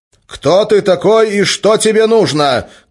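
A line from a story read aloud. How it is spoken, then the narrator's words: Shouted. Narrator (Russian): крикнул Гессер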